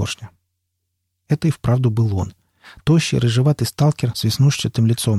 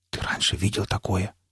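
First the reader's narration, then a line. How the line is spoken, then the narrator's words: Whispered question. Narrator (Russian): спросил Никита почему-то шепотом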